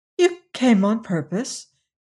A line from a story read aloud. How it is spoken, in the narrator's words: she exclaimed, feeling in truth somewhat awestruck